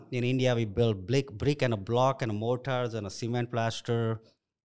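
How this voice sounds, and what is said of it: Indian-accented English. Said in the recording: “Another challenge was my accent. You know, people like, how are you going to work on a site with your accent?”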